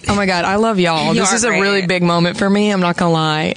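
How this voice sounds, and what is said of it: Southern twang accent. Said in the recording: “you speak like a ... phone sex operator ... the Southern twang”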